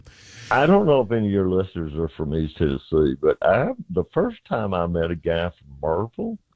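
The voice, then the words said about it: Southern American accent. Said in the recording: “she is suggesting that maybe you have a Southern accent”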